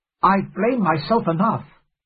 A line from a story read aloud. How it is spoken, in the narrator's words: I cried